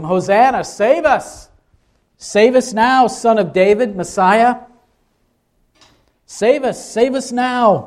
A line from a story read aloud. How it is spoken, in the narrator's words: they shouted to him